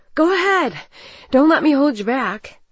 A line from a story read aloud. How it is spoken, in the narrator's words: Struggling to stay close, I wheezed